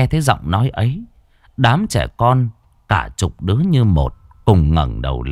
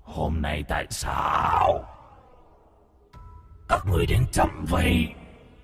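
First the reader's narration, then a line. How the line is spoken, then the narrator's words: Deep, hoarse voice. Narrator (Vietnamese): Từ trong cái kiệu, giọng nói ồm ồm vang lên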